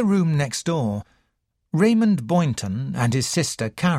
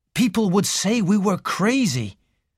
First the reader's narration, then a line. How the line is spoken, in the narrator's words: said Raymond bitterly